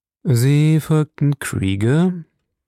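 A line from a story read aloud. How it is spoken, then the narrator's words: Slow male speech. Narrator (German): sagte er langsam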